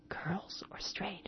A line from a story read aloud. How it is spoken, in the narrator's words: it whispered